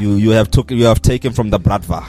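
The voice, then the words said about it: Put-on Russian accent. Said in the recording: “with a Russian accent”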